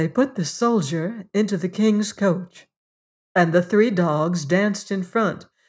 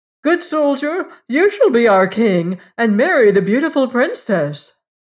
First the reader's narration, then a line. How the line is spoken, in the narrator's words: all the people cried